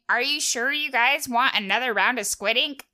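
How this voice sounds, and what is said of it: Voices a cartoon squid character. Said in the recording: “good impression”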